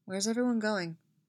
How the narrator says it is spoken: asks quietly

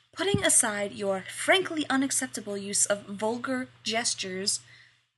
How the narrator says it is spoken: snaps

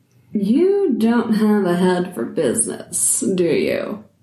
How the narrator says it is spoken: She said, smiling with a hint of a sneer

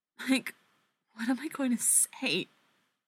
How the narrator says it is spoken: Katie whispers

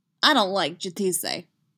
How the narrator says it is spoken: Boba snaps, back to scowling again

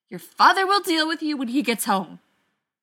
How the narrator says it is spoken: stormed away, yelling over her shoulder

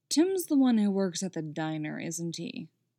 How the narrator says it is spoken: asks Lex

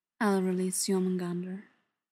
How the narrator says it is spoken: father says

